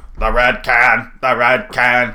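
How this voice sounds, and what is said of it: Creepy tinny robot voice. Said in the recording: “It was like this creepy, like, robot voice ... It was like this creepy tin sounding, like he's talking into a can.”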